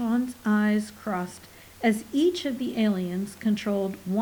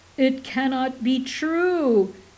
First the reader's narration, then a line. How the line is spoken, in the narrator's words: Minkle wailed in stentorian tones